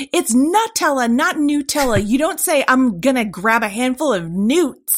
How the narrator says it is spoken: the mother-in-law, who I thought had a point, was yelling at her son-in-law

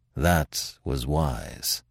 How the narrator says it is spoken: said Manfred, gravely

